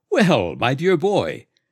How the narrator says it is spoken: exclaimed the doctor warmly

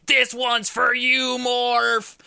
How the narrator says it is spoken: Wolverine decapitating the final Sentinel while screaming

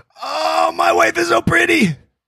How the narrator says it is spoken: I scream

